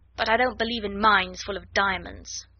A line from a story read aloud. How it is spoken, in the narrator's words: snapped Lavinia